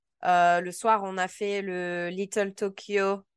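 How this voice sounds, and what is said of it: English name said with French accent. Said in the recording (French): “l'accent vraiment français parce que si je commence à balancer mon accent américain”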